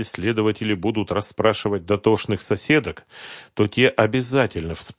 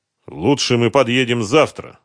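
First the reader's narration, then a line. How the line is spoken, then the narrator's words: Loud. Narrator (Russian): громко произнес Дронго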